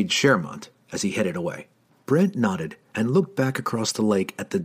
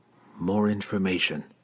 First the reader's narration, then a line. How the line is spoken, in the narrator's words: muttered to himself